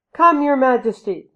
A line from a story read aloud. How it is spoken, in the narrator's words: the people cried to their new king